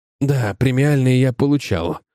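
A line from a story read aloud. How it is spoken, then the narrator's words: Growled. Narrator (Russian): рыкнул Паретти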